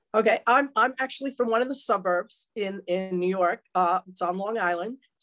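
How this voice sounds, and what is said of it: New York accent. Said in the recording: “as folks are going to tell from your accent. ... you're from New York.”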